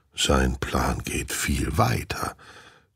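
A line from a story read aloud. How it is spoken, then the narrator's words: Dog growling. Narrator (German): knurrt Hund Wolkenheim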